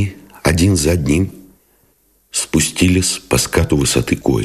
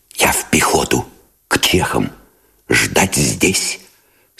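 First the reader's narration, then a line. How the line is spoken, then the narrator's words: Whispering. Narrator (Russian): сказал он шепотом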